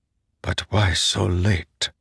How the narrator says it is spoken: Zeth said softly

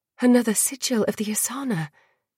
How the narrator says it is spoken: breathed

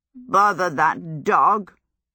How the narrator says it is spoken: croaked

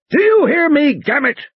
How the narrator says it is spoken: Muldoon bellowed

